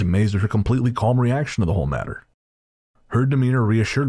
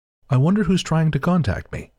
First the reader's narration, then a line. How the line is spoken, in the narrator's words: scared out of my wits, when my aunt calmly asks aloud